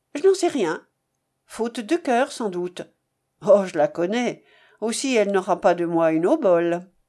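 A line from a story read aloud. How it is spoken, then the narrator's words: Curt. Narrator (French): Madame d'Ambreuse, d'un ton sec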